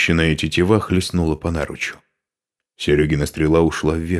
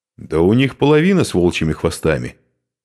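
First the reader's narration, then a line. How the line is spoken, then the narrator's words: Shouted reply. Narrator (Russian): крикнул в ответ Хузарин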